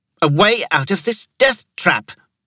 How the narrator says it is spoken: Thera snapped

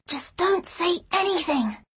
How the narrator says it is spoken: she whispered

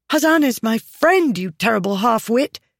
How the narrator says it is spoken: she cried, emotion threatening to disorder her

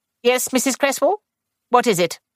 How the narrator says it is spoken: she said sharply

